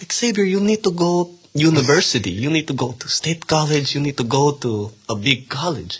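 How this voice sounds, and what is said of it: Put-on thick Filipino accent. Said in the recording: “My grandparents are Filipino. I'm Filipino, so don't think this is racist, but they have, the thick accent.”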